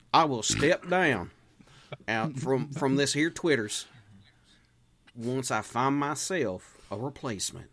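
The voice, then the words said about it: Put-on Southern American accent. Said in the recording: “I have a feeling he has a Southern accent right now.”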